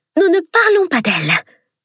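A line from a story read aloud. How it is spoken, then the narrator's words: Hissed. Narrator (French): siffla Dame Harmonie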